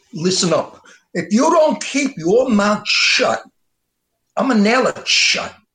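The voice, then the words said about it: Tough mobster gangster voice. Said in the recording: “your mob impersonation ... that mob thing ... gangster”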